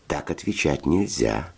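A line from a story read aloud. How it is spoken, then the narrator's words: Gentle explaining. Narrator (Russian): ласково объяснил Федя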